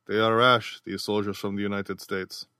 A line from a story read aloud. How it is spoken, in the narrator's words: Seeing that argument was useless against these reckless hotheads, their host merely muttered softly to himself